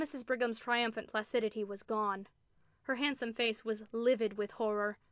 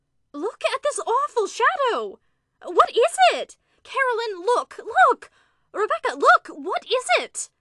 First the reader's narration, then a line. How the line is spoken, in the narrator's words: Then suddenly she shrieked out